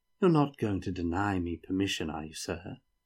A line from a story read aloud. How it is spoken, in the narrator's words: asked sweetly